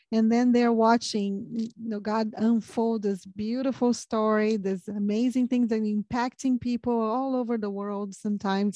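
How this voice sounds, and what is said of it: Non-American, Portuguese-speaker accent in English. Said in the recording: “I'm not American, as you can tell, but the accent ... in Portuguese or English”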